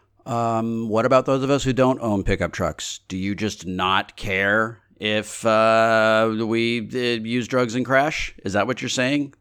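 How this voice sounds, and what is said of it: Mocking concern troll voice. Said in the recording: “That was my impression of a concern troll on the internet.”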